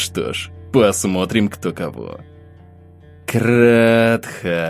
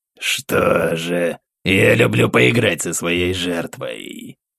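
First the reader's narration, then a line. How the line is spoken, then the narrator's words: Purring growl. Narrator (Russian): зарычал демон, чем-то напоминая мурлыканье дикой кошки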